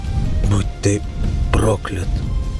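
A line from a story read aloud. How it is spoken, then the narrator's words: Weak semi-conscious mumble. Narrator (Russian): Вяло пробормотал он, явно балансируя на грани сознания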